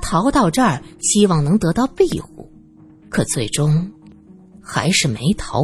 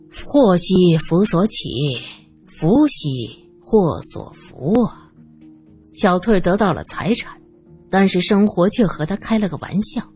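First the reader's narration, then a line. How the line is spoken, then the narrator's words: Sighing, resigned. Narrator (Chinese): 罗隐叹了口气，继续说道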